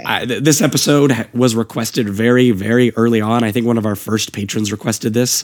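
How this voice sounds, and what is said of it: Hoarse, raspy voice. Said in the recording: “I've just lost my voice, as you can tell. I now sound like I've been a smoker for like 30 years.”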